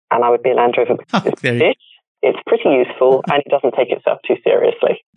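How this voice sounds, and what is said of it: British accent. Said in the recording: “with a fine British accent as well.”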